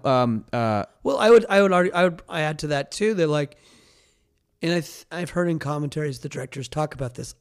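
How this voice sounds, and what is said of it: Strained, fading voice. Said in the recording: “I might be losing my voice a little bit.”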